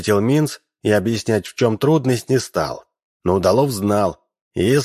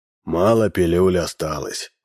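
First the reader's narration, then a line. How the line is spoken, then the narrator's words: Sighing. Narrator (Russian): вздохнул Минс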